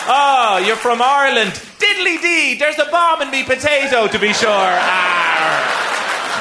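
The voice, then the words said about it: Mocking stereotyped Irish accent. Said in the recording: “do their hilarious Irish impersonation. It's always offensive, borderline racist”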